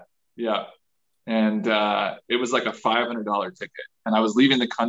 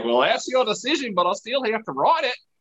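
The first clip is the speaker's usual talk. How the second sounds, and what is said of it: Rough put-on Australian accent. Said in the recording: “that's my rough Australian accent.”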